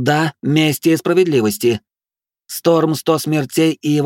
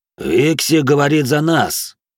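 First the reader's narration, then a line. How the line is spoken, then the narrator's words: Gloomy sullen reply. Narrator (Russian): мрачно ответил угрюмый нордеец Рикс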